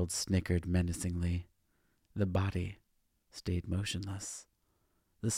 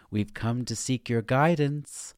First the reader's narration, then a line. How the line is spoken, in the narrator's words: Sharon called out in a sing-song voice